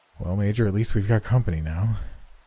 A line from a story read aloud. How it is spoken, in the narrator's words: was Miller's sigh of relief